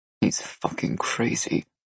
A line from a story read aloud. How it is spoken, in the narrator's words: Nikolai muttered under his breath